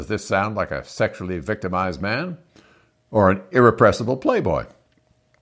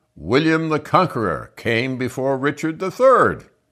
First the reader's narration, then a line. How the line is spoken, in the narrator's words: Will cried out